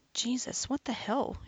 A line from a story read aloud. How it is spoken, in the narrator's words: muttered to herself